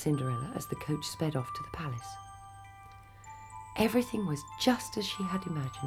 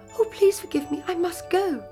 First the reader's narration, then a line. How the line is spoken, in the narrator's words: she cried to the astonished prince